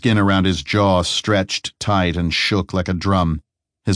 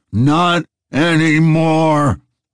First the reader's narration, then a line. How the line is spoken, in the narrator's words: roared Zero